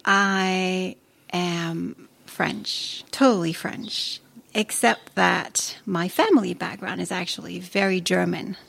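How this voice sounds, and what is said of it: Sounds American speaking English. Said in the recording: “Why do you sound so American when you speak English”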